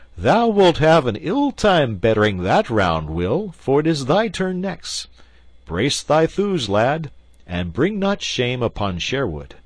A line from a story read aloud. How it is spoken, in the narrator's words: Merry Robin laughed, and quoth he